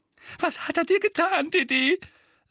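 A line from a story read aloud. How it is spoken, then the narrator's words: Trembling voice. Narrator (German): sagte Tante Petunia mit zitternder Stimme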